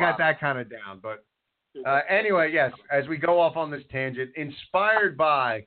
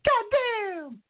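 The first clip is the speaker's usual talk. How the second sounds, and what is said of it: Imitates another person's voice. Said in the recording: “it's not a good Jim Cornette impression. It's an impression of Bruce Pritchard impersonating Jim Cornette.”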